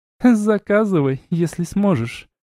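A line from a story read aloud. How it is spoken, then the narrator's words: Scornful snort. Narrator (Russian): Фыркнула блудница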